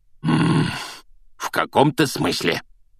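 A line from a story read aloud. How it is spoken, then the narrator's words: Growling. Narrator (Russian): прорычал дядя Вернон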